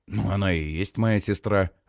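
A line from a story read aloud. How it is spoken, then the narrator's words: Confused agreement. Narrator (Russian): растерянно соглашаюсь я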